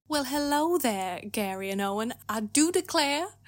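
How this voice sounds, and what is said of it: Put-on Southern US accent. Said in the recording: “announce yourself in a Benoit Blanc accent ... my so-called Leghorn Southern accent”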